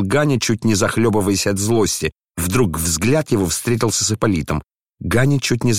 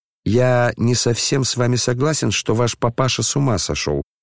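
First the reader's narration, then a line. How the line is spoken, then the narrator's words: Calm reply. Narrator (Russian): спокойно ответил он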